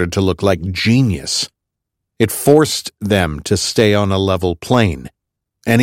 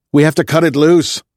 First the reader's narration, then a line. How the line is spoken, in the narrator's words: I yelled to no one in particular